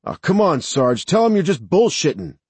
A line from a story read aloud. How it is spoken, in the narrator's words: Mike called out